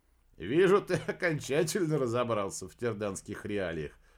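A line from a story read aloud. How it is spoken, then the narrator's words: Laughing. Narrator (Russian): рассмеялся Реджинальд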